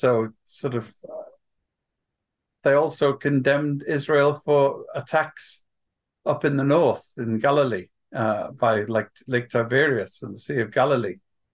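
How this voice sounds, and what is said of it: Noticeable accent. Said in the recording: “you might have noticed from my accent,”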